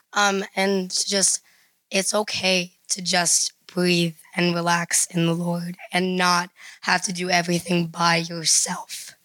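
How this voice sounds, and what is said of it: Strained, failing voice. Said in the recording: “My voice is dying”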